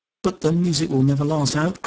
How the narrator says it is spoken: cried Georgie

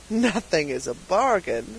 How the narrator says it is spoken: said the purchaser with a chuckle

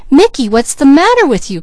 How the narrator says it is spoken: cried Peaches suddenly

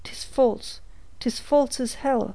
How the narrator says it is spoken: he cried

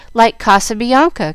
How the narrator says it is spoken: cried Jill, much impressed

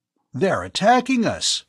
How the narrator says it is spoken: Bud cried out

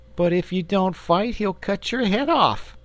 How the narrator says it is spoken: gasped the boy, miserable at the prospect of losing both the fight and his friend

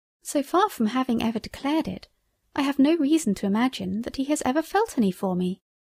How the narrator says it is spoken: said Janetta

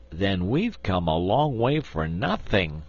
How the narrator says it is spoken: exclaimed Trot regretfully

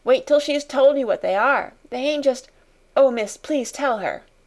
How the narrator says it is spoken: cried Becky

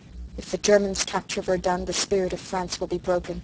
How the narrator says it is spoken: said bitterly

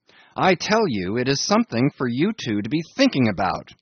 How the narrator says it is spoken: he cried

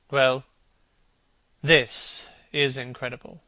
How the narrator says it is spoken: repeated Hallward, rather bitterly

